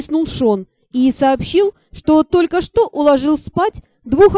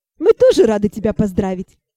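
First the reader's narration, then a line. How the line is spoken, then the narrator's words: Laughing. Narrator (Russian): Засмеялась я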